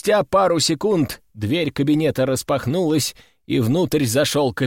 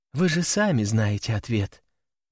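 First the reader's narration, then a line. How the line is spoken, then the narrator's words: Resigned sigh. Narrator (Russian): обреченно вздохнула девушка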